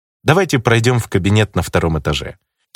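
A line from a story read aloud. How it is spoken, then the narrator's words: Suggesting. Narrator (Russian): предложил я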